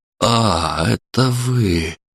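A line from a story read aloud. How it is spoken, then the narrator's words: Relieved exhale. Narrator (Russian): Он облегченно выдохнул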